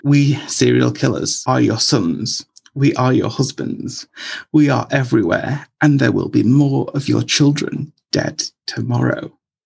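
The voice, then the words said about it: Dramatic, theatrical reading voice. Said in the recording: “I read that in a dramatic voice, a dramatized voice”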